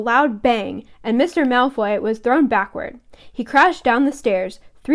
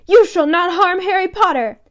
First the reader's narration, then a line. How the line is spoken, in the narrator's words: Dobby shouted